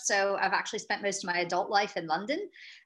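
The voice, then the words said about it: American accent. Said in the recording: “you can probably tell a little bit from my accent ... I'm an American, but transplanted over to Europe”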